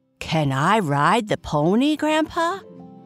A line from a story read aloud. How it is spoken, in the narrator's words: Timmy asked excitedly